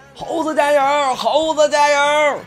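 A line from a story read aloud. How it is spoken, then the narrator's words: Excited shouting, students. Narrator (Chinese): 全场沸腾了，一些同学忍不住高喊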